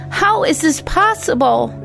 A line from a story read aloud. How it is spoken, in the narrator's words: She cried out in astonishment and tormented pain